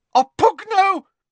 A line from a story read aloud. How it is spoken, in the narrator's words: came a shriek from the doorway